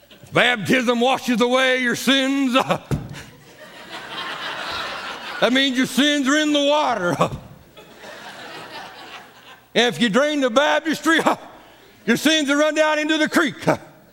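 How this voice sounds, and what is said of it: Old-timey preacher voice. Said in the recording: “I'll try to do it in an old-timey preacher voice.”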